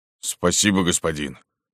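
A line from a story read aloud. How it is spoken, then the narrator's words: Plain. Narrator (Russian): сказал Спел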